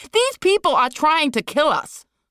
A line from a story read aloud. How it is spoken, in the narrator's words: Liz screamed